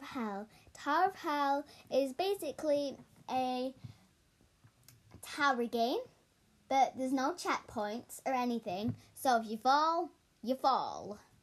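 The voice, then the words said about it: Breathless, fast speech. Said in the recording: “I'm out of breath again... I'm talking too fast”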